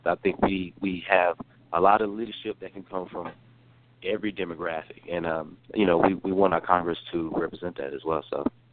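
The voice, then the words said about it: Slight North Carolina accent. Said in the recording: “you have a slight accent. So where are you from? ... I thought I got rid of that accent. ... I am from the state of North Carolina originally, born and raised.”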